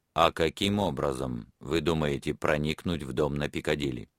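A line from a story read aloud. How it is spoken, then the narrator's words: Calm. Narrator (Russian): Профессор спокойно сказал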